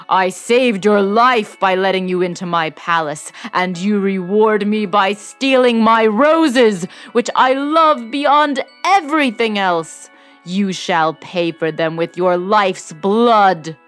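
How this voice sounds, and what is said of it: Terrifying roaring beast voice. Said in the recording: “cried the beast in a terrific voice”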